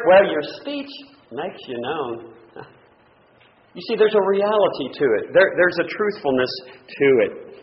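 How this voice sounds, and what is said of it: Texas drawl. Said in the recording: “my Texas drawl”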